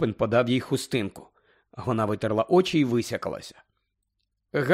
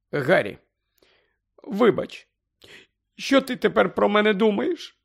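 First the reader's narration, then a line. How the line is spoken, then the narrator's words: Trembling groan. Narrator (Ukrainian): Простогнала вона тремтячим голосом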